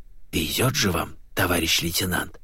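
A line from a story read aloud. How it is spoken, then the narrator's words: Breathless whisper. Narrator (Russian): шепотом проговорил подбежавший Карабаш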